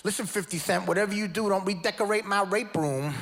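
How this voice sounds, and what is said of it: Imitates another person's voice. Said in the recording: “do a Mike Tyson impression.”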